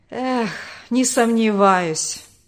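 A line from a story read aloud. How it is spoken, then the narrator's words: Bitter sigh, father. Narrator (Russian): горько вздохнул отец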